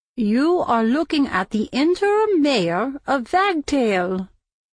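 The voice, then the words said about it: Older woman with German accent. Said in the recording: “she still spoke with a German accent after 50 years in America”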